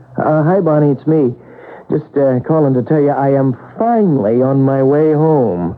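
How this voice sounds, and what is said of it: Tired-sounding voice. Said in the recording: “You sound tired”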